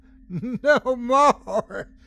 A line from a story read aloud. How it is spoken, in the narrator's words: she yelled gleefully